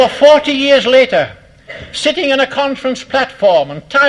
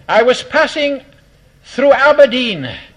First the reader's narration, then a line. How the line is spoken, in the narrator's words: he said